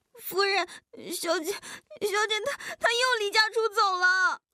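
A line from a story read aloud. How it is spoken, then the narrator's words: Bursting into tears. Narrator (Chinese): 忍耐不住，哭了出来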